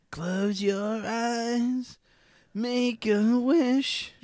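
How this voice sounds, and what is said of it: Exaggerated imitation of another person's singing. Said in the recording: “You're trying too hard. ... I'm trying to do an impression ... you're trying too hard. Just don't move your face.”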